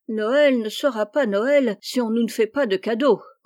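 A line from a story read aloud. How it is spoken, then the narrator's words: Grumbling. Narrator (French): grommela Miss Jo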